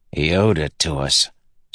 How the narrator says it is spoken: Scar said with a grunt

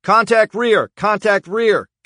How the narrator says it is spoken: Gage shouted over the radio

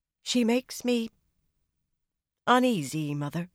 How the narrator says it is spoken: she said finally

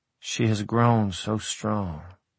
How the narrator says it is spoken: Elizabeth whispered

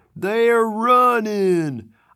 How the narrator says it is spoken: a voice yell joyfully

